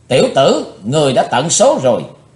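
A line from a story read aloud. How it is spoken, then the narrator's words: Angry loud shout. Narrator (Vietnamese): Bát Độc Lão Ma giả hiệu giận dữ quát lớn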